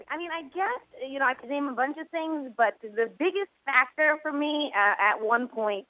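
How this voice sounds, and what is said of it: Working class New York accent. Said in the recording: “my literal voice, my accent does get its fair share of attention ... a working class New York woman”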